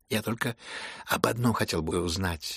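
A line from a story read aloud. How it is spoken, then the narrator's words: Glum male remark. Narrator (Russian): уныло заметил князь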